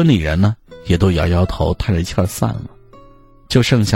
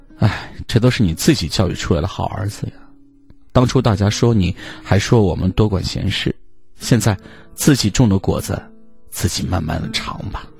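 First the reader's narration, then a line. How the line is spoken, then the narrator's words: Sighing. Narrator (Chinese): 我大伯 叹了口气儿说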